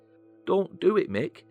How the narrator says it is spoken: a weary Elizabeth pleaded

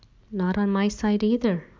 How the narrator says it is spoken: Mom murmured

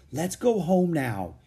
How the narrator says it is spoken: he begged

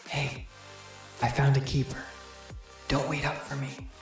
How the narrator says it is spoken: She leaned in and whispered into my ear

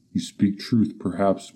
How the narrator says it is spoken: muttered Amra

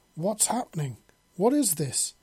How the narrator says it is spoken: Alex exclaimed

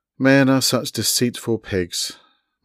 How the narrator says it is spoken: muttered Rainey

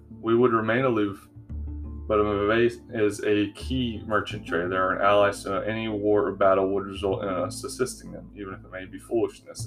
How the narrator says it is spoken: Alanias said flatly

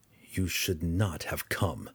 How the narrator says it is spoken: Drizzt said, his voice sounding like a growl

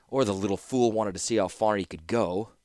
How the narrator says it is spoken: Urza grumbled

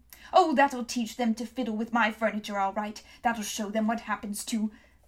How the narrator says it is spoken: muffling the rest

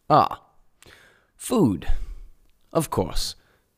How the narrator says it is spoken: exclaimed the Ambassador

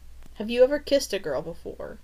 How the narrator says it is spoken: Jenny snapped

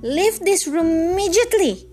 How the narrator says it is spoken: she cried, her voice trembling

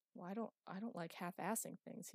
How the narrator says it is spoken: he muttered

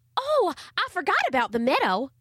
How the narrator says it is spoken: exclaimed Charlie Ray

